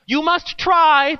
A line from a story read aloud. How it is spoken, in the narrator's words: the other shouted back in tears now